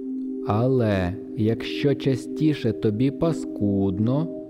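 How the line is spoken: Deliberately slow, pointed. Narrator (Ukrainian): Форд говорив навмисне повільно, щоб усі слова досягли мети

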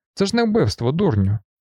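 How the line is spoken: Shouted, guard. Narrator (Ukrainian): вигукнув інший вартовий

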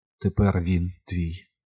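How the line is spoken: Whispered, huntress. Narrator (Ukrainian): прошепотіла мисливиця

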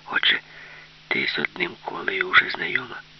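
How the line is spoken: Whispered in ear. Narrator (Ukrainian): Юлька прошепотіла на вухо

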